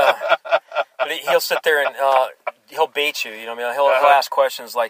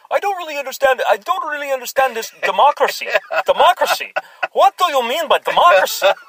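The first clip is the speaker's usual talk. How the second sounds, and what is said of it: Poorly imitated foreign accent. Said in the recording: “making fun of your accent ... Well, it's really bad. I know that, like, I'm terrible, actually”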